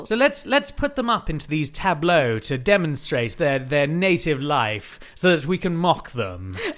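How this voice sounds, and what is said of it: Crisp put-on British accent. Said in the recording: “our Missourians have got a crisp British accent”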